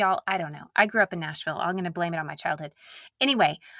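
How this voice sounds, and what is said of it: Usual voice. Nothing is said of it.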